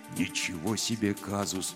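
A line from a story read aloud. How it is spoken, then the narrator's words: Quiet. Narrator (Russian): тихо сказал Гробус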